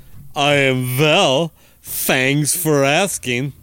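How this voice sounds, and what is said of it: Lispy Dracula-like character voice. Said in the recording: “you sound like Paul Stanley is Dracula. ... A little bit lispy.”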